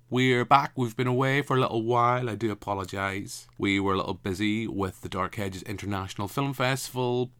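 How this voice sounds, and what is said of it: Northern Irish accent. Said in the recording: “Cinematic Discussion with a Northern Irish Accent.”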